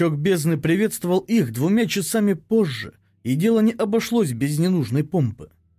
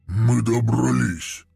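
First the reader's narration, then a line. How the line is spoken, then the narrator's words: Grumbled. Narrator (Russian): проворчал Вознесенный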